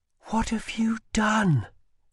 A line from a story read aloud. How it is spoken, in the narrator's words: she whispered